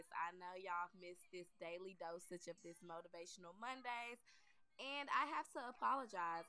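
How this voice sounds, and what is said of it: Raspy voice. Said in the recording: “raspy voice”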